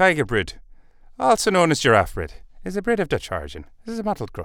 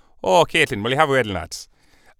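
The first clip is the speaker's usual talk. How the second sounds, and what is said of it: Put-on Irish accent. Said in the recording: “I was just in Ireland at a wedding ... I've got it in my head now ... not that I'm a, any kind of expert on accents”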